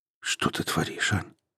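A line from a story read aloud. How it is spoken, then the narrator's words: Quiet, into the ear. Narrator (Russian): тихо сказал он ей на ухо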